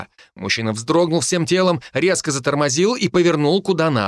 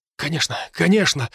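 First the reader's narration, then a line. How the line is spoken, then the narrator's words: Breathed out. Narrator (Russian): выдохнул водитель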